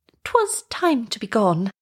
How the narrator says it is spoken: the lark gently hinted

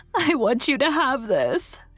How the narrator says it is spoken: she sobbed

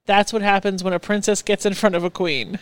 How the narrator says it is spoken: my gay best friend says in the most flamboyant tone

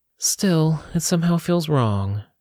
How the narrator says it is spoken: sighed

